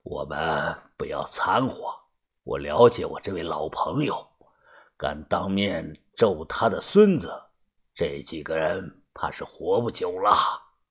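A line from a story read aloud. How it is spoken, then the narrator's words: Low, slightly frowning. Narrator (Chinese): 把头眉头微皱， 低声的说道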